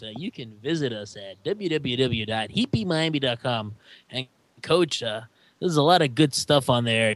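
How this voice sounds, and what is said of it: Impression of Eric Reed. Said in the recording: “I'll do it in my Eric Reed voice.”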